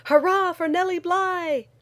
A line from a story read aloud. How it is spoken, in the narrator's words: shouted